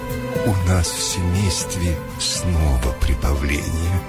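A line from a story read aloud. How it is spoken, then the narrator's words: Plain. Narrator (Russian): сказала она мышке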